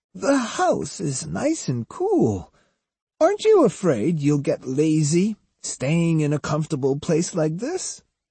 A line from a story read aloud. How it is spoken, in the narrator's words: Kojiro laughed